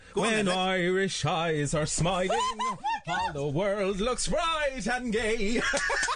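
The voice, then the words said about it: Singing in an Irish accent. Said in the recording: “Did you have to sing with an Irish accent? ... Yeah.”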